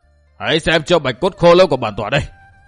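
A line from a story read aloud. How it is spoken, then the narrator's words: Shout. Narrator (Vietnamese): Đầu Lâu Bảo chủ quát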